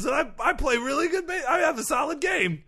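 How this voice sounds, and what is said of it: Imitates another person's voice. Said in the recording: “Here's my impression of Albert Pujols.”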